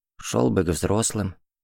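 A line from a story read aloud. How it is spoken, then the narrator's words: Shy quiet boy. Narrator (Russian): тихо сказал застенчивый семиклашка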